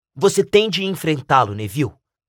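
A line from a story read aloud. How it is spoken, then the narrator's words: Plain. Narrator (Portuguese): disse Rony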